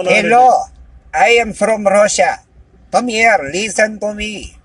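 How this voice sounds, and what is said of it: High-pitched put-on Russian accent. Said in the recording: “if you go high-pitched Russian, how would that sound?”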